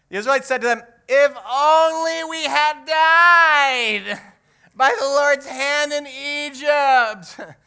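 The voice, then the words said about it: Very whiny voice. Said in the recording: “in a very whiny voice”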